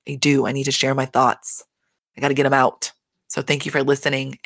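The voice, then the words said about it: Hoarse, fading voice. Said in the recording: “my voice keeps going out today”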